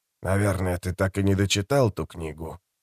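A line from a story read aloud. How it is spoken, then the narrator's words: Quiet question. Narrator (Russian): негромко спросил Розенфельд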